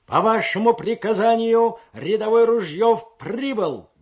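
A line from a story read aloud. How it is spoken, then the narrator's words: Loud bark. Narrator (Russian): гаркнул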